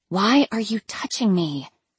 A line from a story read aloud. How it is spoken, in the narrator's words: I whispered, barely moving my lips